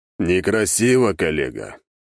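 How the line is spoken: Stern. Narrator (Russian): строго покачал тот головой

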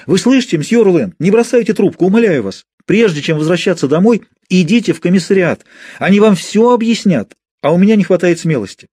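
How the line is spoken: Shout. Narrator (Russian): крикнула

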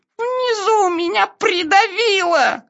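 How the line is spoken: Squashed, muffled voice. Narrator (Russian): сказал Пятачок придавленным голосом

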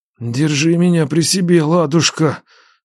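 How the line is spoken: Moaning. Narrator (Russian): стонал Нечай

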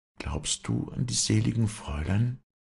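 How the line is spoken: Hushed, secretive. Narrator (German): sagte Wally leise, als könnten sie's hören

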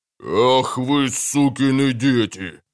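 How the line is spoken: Sudden bellow, bull-like voice. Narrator (Russian): Совершенно неожиданно рявкнул пастельный бургомистр бычьим голосом, никак не соответствующим его телесам

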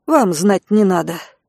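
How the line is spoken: Grumbling. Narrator (Russian): буркнула Райка

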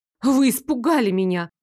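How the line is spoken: Accusing exclamation. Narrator (Russian): обвиняюще воскликнула я

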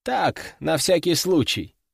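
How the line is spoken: Chuckling. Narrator (Russian): хохотнул граф

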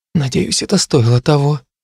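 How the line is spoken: Strangled voice. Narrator (Russian): добавили сдавленным голосом

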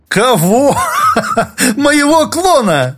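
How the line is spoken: Loud laughter. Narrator (Russian): Олег снова расхохотался

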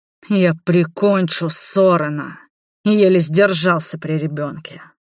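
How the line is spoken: Angry growl. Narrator (Russian): прорычал Роберт

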